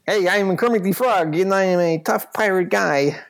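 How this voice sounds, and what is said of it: Kermit the Frog voice with tough accent. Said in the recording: “Barker Kermit ... a Kermit with an accent ... like Squiggy ... like a wild and crazy guy”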